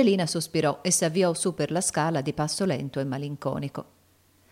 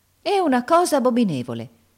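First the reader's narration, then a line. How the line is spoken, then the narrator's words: Exclaimed. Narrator (Italian): esclamò Miss Ophelia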